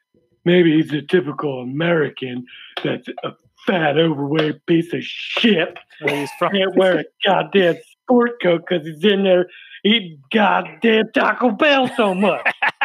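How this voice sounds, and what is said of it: Gruff comedic character voice. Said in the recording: “your Dear Abby impression ... sounded like a cross between ... it's like Chris Farley. Colonel ... Sanders and fucking Stone Cold Steve Austin”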